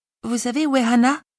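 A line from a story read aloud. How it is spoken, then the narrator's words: Little girl stammering. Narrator (French): bredouille la fillette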